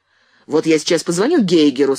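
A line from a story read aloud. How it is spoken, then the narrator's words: Angry. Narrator (Russian): сказал Андрей зло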